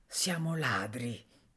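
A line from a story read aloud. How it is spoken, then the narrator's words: Quiet voice. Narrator (Italian): disse a bassa voce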